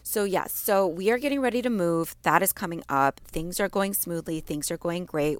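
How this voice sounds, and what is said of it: Congested, slightly off voice from allergies. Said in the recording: “I know I sound a little bit off. It's because, again, my allergies ... my throat and nose and all the things are really reacting to it ... I sound so different”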